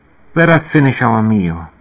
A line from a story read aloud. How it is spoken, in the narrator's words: Emmanuel said